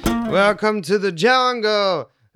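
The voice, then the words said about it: Bad sung rock-singer impression. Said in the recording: “I'm the worst Axl Rose impersonator ever, and the worst singer ever”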